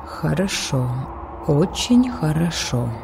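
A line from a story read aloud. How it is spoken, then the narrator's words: Mutter. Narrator (Russian): пробормотала Зали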